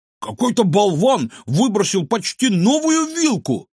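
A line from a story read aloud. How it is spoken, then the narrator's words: Shout. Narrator (Russian): крикнул он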